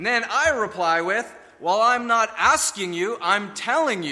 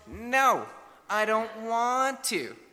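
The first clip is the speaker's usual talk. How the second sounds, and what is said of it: Imitates a young child's voice. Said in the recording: “that was my best imitation.”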